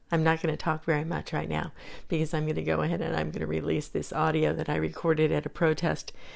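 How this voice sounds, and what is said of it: Hoarse, strained voice. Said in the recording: “I'm losing my voice. I've been yelling a lot.”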